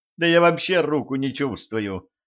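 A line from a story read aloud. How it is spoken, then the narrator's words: Exclaimed. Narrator (Russian): воскликнула Женька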